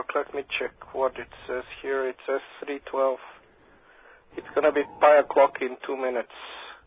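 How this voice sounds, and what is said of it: Tired-sounding voice. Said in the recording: “you sound tired”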